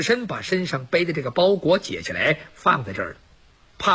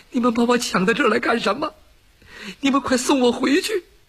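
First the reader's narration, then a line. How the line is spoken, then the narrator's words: Woman sobbing while speaking. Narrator (Chinese): 这女子一边哭一边还在说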